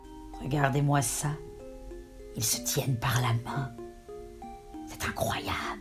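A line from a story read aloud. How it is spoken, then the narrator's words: Murmured. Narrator (French): murmura Scory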